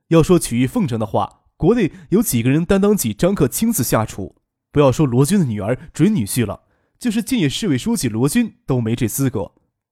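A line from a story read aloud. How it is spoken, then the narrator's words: Laughing. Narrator (Chinese): 张可笑着说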